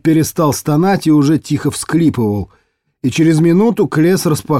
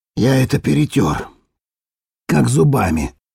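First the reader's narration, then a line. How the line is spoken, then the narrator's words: Muffled dull voice. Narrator (Russian): Глухо сообщил Ерл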